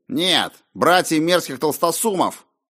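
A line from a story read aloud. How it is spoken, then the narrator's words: Snapping retort. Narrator (Russian): огрызнулся он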